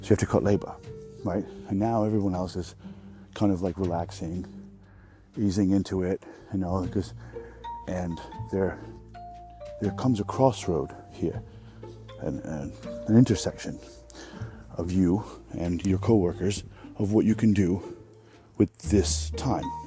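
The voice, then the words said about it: Speaks in a put-on accent. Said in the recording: “I'm gonna switch off the accent now because it's fucking annoying.”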